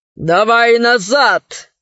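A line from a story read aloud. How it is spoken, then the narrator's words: Growled. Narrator (Russian): зарычал он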